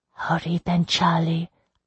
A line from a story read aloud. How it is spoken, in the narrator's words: I whispered